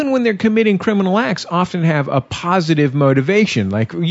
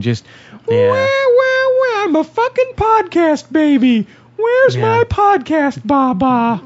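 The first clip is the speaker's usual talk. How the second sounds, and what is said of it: Whiny imitation of another person. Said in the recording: “It's a good impression... The whining.”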